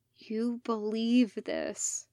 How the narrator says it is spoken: 99 murmured

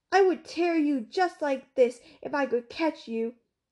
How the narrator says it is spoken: When Enkidu heard Ishtar's curse, he shouted

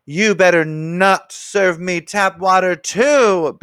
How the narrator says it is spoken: Betty Lou yelled

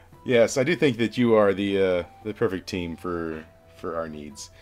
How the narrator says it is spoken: he just sort of chuckles, and he's like

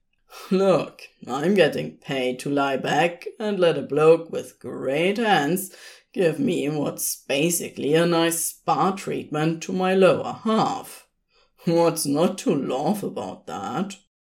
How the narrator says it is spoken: huffed a small laugh

